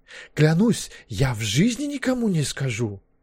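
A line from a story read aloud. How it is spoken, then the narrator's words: Sudden impulsive exclamation. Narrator (Russian): Вдруг по наитию воскликнул Маккехт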